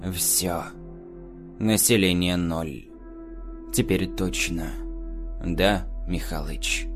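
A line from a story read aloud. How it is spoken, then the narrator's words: Said quietly. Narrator (Russian): Олег тихо произнес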